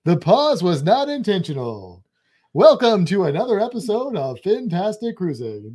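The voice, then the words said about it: Game show announcer voice. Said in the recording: “That's my game show announcer voice.”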